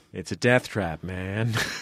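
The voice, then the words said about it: Todd Barry impression. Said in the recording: “Good Todd Barry impression.”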